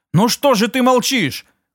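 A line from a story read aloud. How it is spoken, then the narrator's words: Shout. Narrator (Russian): крикнула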